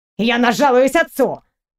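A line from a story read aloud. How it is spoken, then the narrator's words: Indignant snort from floor. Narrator (Russian): фыркнул Авалин, не в силах подняться с пола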